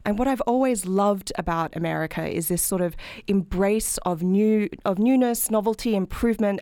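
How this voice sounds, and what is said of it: Australian accent. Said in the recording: “as you can probably tell from my accent, I'm not from this country, I'm from Australia.”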